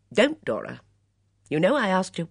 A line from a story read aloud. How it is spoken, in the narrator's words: She said sharply